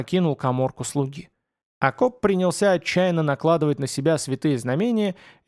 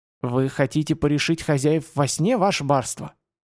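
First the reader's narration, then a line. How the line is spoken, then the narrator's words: Frightened old man's wheeze. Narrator (Russian): просипел старик, посерев лицом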